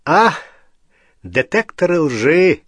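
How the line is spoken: Theatrical sigh. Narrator (Russian): театрально вздохнул Треверс

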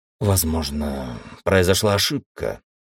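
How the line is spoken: Gruff mutter, feigning composure. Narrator (Russian): стараясь сохранить невозмутимость, буркнул он

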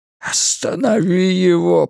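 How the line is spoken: Moaning. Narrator (Russian): простонал Ральф

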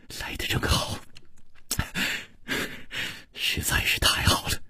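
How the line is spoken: Gentle. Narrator (Chinese): 楚留香柔声说

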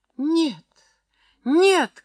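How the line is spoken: Shouting. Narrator (Russian): крикнула Иринка

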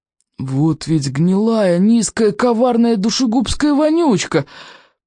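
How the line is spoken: Hissed through clenched teeth. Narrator (Russian): процедил Стоик сквозь стиснутые зубы

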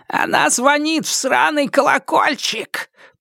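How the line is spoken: Hissed. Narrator (Russian): прошипел он

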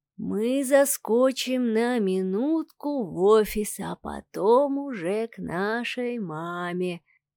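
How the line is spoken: Singsong reply. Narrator (Russian): нараспев ответил Савелий, обращаясь к другу

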